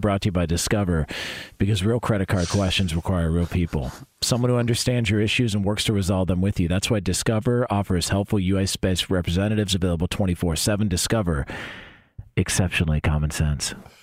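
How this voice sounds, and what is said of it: Smooth announcer radio voice. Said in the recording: “That was completely different... 1-900 hotline... That's just a radio voice... That's just natural on the air”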